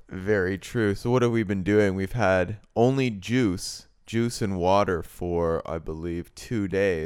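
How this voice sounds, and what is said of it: Voice sounds sick with a cold. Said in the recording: “if you notice by my voice, I'll apologize in advance. I've got a little bit of a cold.”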